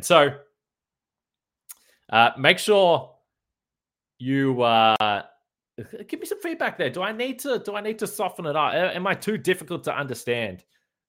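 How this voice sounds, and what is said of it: Thick Australian accent. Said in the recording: “little bit thick ... get back to being an Aussie ... it's become a little bit overbearing, my accent again”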